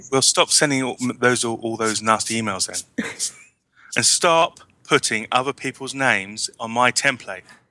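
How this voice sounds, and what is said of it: English accent. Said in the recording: “we're going to need somebody else that's got an English accent ... Nobody has your accent.”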